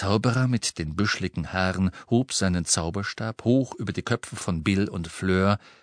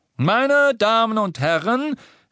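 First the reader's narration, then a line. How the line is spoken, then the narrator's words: Wizard calling out. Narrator (German): rief der Zauberer mit den büschligen Haaren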